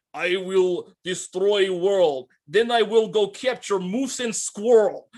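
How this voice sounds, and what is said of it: Over-the-top cartoony bad Russian accent. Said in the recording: “so over the top cartoony, bad Russian accent”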